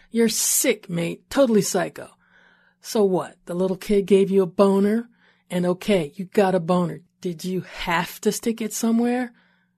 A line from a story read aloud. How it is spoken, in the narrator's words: Tatika kept yelling